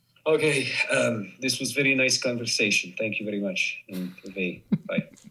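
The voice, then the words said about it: Put-on Polish accent. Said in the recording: “Say goodbye in Polish with a Polish accent.”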